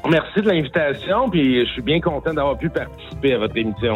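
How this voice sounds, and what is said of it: Québécois French accent. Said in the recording (French): “depuis votre Québec, euh, et votre délicieux accent”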